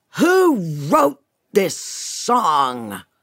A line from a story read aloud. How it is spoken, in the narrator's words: all of a sudden, he screams